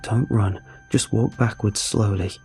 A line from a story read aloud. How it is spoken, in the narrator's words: I told her quietly through my set jaw